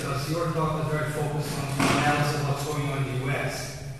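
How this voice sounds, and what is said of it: Foreign accent in English. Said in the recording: “as you can see by my accent, I'm very interested in the international perspective”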